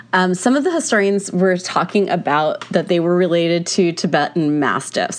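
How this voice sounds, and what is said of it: Congested voice from a cold. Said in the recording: “I have a cold, a flu. I have been sneezing and coughing like crazy.”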